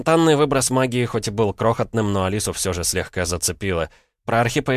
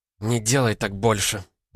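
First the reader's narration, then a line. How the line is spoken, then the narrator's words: Breathless gasping wheeze. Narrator (Russian): просипела, судорожно пытаясь вдохнуть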